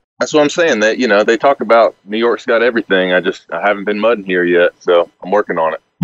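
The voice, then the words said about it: Southern Alabama accent. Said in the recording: “He is from Birmingham, Alabama ... that accent doesn't really go with New York”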